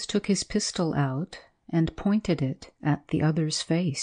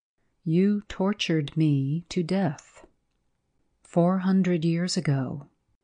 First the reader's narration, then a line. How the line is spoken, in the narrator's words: said the clerk, in the same steady voice